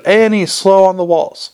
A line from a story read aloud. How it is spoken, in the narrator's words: he shouted